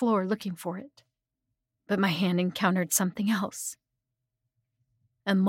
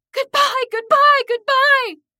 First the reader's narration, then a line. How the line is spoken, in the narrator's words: I kept screaming